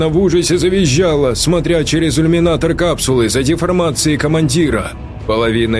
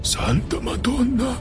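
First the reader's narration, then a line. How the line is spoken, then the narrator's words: Strained exclamation, young man. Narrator (Russian): Только и смог выдавить из себя молодой итальянец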